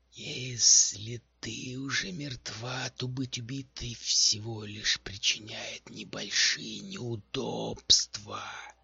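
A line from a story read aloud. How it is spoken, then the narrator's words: Hoarse rasp. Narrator (Russian): прохрипела некротика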